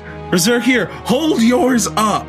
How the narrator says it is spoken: he yells back

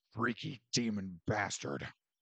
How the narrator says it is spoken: Rezin spat

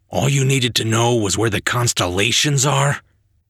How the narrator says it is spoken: He sighed

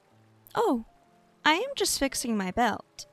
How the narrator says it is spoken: Celia said, her voice innocent

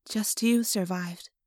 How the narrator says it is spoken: I said sadly

